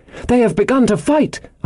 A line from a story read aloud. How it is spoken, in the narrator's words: I cried